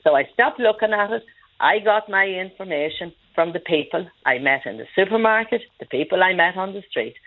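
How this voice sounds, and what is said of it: Irish Monaghan accent. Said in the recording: “my Monaghan accent ... I'm very proud of my Monaghan accent”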